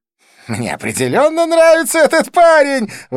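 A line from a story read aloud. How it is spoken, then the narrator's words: Exclaiming. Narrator (Russian): воскликнул Близнец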